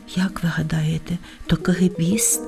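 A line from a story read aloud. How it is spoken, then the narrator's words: Whispered question. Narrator (Ukrainian): пошепки спитала півоня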